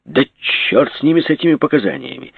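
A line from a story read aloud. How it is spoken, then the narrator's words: Angry. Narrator (Russian): сердито сказал Жеглов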